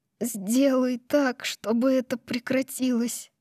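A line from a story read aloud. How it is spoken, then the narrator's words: Sobbing. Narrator (Russian): и всхлипывает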